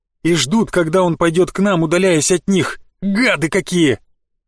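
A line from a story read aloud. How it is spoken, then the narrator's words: Growled. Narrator (Russian): прорычала адская блоха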